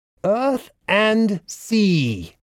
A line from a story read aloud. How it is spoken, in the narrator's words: Phagos shouted